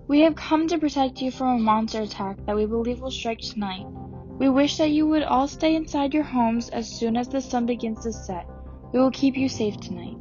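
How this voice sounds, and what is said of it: Strikingly feminine voice. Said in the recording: “in her strikingly feminine voice.”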